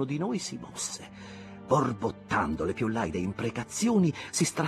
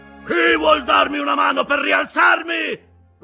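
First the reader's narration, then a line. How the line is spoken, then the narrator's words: Roared. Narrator (Italian): ruggì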